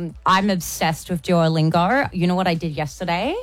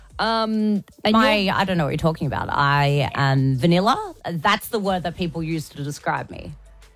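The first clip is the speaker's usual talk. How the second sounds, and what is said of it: Sarcastic delivery. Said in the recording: “clearly I'm being sarcastic”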